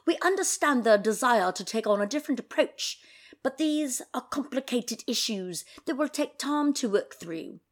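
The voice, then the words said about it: Put-on British accent. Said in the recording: “I should do this in a British accent ... that's as good as my British accent's going to get for today”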